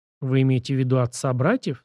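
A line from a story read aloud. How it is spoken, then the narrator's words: Plain question. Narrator (Russian): спросила Нечаева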